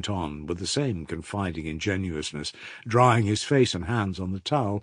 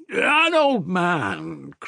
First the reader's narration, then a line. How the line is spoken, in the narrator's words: cried Mitya, laughing and shouting at him as though he were deaf